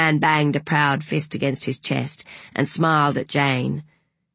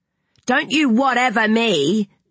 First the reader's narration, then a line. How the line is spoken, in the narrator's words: called out Madeline